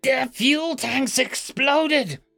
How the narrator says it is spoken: screeched the administrator

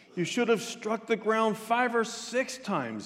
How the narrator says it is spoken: he exclaimed

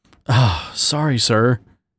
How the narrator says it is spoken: Dan mumbled

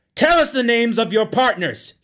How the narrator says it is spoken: he shrieked

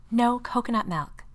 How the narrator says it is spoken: stage whispered

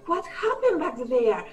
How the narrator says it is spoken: Bai said, panting

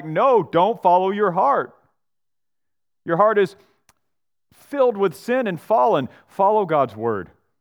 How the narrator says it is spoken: like Vodi Bakum, yell back

